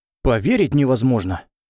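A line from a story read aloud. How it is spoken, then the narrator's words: Exclamation. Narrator (Russian): воскликнул Джим Бэйнс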